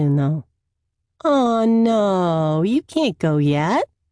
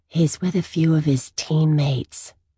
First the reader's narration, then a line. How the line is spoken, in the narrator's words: she murmurs back